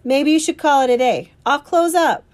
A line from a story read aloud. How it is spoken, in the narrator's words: he yells